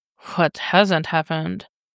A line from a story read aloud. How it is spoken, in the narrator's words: Dick murmurs